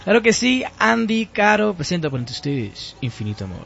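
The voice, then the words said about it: Radio announcer style voice. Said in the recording (Spanish): “Con voz de locutor y todo”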